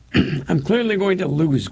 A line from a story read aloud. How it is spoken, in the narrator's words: Gordon says with a laugh